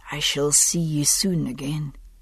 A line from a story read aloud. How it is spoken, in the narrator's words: he whispered